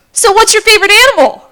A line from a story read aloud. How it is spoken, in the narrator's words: she blurts out